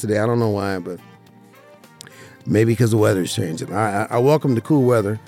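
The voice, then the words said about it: Rough, hoarse voice. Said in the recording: “My voice is a little rough today, a little hoarse”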